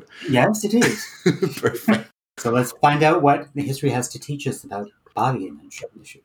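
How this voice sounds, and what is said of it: Fancy put-on accent. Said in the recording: “speak about it in a fancy accent”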